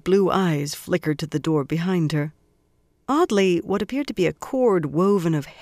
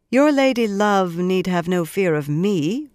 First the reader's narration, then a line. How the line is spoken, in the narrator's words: Moiraine told him dryly